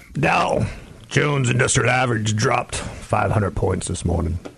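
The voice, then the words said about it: Put-on serious voice. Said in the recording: “That's my serious voice.”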